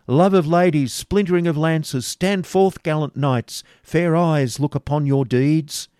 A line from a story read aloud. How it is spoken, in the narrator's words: the voices of the heralds exclaiming